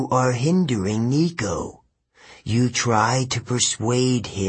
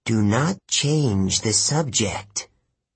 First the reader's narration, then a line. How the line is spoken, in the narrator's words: the ghost growled